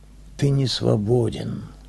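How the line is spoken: Quiet. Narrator (Russian): негромко сказала Ия

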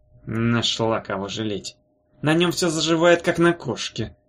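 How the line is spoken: Grumbling mutter. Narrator (Russian): пробурчал Пуфс

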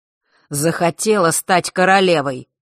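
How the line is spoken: Father, angry. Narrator (Russian): зло произнес отец

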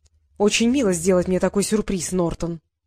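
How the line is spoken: Cold. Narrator (Russian): холодно произнесла Елена

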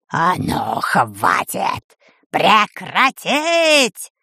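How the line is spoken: Terrible roar. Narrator (Russian): Страшным голосом взревела Чумадель-Торт

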